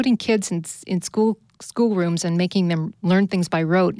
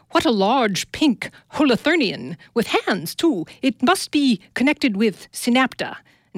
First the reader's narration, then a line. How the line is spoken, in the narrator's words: cried